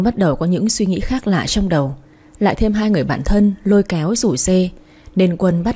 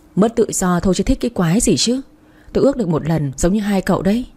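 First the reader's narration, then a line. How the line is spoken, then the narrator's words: Sighing, irritated. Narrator (Vietnamese): Quân thở dài nói giọng khó chịu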